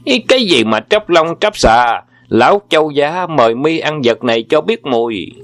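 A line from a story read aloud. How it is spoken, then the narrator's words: Angry shout. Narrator (Vietnamese): Châu Bá Thông tức giận thét lên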